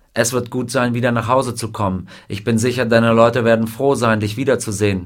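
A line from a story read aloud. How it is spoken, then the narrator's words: Plain. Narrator (German): sagte der Colonel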